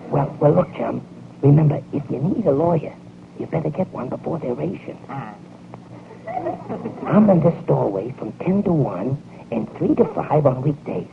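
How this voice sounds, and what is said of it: Whispering, voice lost to laryngitis. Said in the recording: “why are we whispering? ... I don't know why you're whispering, chum, but I got meningitis ... Laryngitis.”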